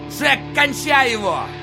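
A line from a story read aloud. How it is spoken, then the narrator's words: Shouting. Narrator (Russian): крикнул он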